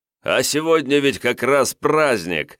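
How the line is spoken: Merry laughter. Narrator (Russian): Весело расхохотался князь

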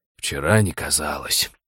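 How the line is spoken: Gruff mutter. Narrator (Russian): буркнул Хрущак

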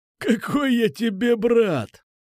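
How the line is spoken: Exclaiming with warm husky laugh. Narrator (Russian): воскликнул он и рассмеялся теплым сиплым смехом

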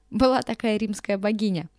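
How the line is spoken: Laughing. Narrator (Russian): рассмеялась Флора Лориковна

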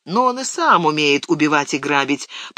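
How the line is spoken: Grumbled. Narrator (Russian): проворчал Сэм

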